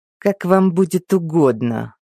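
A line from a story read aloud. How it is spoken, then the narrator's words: Mage, through gritted teeth. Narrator (Russian): процедил маг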